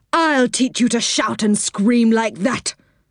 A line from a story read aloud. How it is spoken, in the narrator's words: said Dame Washalot in a fierce voice